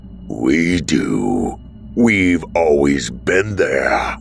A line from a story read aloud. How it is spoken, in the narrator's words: the stranger snarled